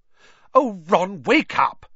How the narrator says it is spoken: snapped Hermione

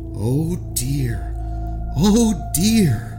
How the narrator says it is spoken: moaned the old man

